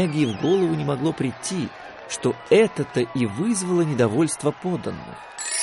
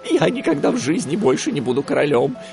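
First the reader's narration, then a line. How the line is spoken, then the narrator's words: Frightened. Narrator (Russian): испуганно ответил тот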